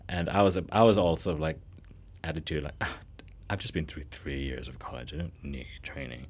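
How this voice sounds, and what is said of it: Low growly vocal fry. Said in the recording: “Did you like my vocal fry? ... where they take it really low and like let the voice kind of just do that growly thing”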